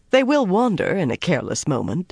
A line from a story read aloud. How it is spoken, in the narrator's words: he added to Rand in a kindly tone